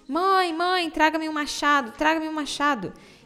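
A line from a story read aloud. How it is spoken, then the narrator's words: Shouting. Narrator (Portuguese): gritou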